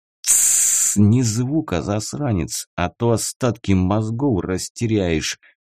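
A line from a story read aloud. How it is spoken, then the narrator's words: Hissing into ear. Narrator (Russian): прошипел ему в ухо Седой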